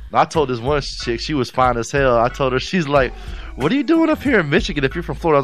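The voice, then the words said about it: Florida Southern accent. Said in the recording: “I got that Florida accent.”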